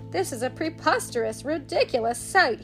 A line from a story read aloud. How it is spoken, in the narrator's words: snorted